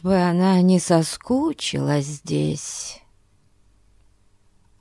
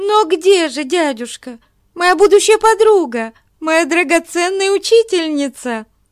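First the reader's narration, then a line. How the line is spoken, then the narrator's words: Young woman exclaiming. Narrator (Russian): Воскликнула юная баронесса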